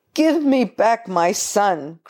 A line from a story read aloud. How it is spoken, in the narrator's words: cried the desperate father